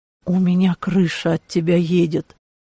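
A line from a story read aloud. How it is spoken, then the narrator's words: Quiet, exhausted confession. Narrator (Russian): тихо признался Клаус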